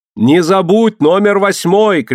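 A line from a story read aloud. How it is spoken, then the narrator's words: Shout. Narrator (Russian): крикнула ему Мэри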